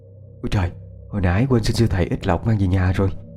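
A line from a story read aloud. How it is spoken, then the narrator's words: Muttered. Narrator (Vietnamese): lẩm bẩm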